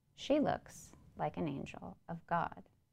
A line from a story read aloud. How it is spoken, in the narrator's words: he murmurs quietly